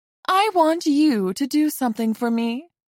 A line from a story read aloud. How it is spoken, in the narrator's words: she said sweetly, still sounding a little crazed